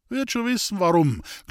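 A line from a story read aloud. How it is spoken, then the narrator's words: Laughing voice. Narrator (German): klang eine lachende Stimme von der Mauer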